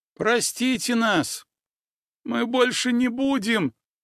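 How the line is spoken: Whining. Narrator (Russian): проскулили миньоны добра

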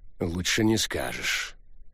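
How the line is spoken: Very quiet reply. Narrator (Russian): очень тихо ответил Бентли

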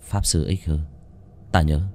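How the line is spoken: Old man sighing. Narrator (Vietnamese): Ông thở dài một hơi

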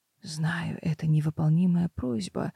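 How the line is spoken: Whispering groom. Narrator (Russian): зашептал жених

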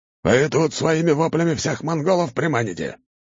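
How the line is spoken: Huge man barking. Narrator (Russian): рявкнул огромный монгол

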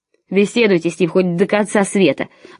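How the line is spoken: Spiteful nasal voice. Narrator (Russian): злобно прогнусавил Клэренс

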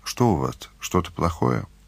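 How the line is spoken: Quiet question. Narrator (Russian): Таня тихо спросила

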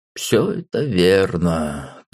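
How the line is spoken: Drawling. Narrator (Russian): протянул отец

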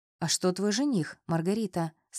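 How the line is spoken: Plain. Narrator (Russian): спросил Воронцов

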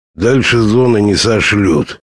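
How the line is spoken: Muttered. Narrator (Russian): хотел было буркнуть он

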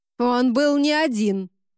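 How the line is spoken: Barked, female cardinal. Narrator (Russian): рявкнула кардинал

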